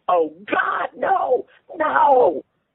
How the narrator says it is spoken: he screamed

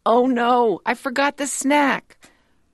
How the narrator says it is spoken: Mom shouts

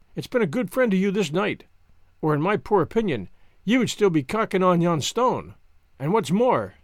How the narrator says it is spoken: says he

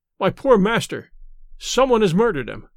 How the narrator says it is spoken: cried he, sobbing

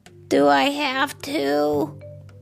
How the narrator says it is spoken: Raccoon whined

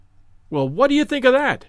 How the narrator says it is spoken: cried, with the air of a showman exhibiting his show

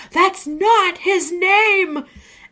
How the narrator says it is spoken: the customer yelled

